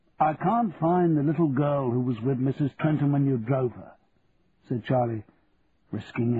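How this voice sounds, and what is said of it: Usual voice. Nothing is said of it.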